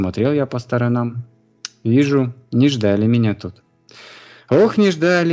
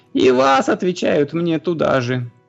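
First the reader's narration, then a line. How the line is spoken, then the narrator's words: Shrill screaming. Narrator (Russian): И истошно визжат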